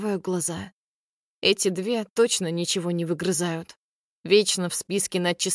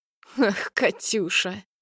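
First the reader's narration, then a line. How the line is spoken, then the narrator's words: Spiteful laughter. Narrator (Russian): зло хохочет Царёва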